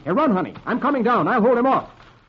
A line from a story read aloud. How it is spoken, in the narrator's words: Flash shouts